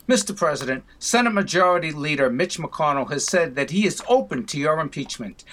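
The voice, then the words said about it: Boston accent. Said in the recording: “with the Boston accent.”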